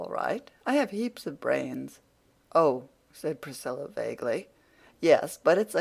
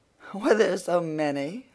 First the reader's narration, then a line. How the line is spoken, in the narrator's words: laughed Anne